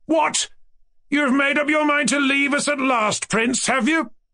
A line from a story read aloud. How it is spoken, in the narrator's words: he cried to Mushkin